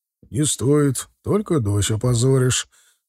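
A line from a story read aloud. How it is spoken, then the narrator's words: Almost calm. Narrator (Russian): ответил Тарас уже почти спокойно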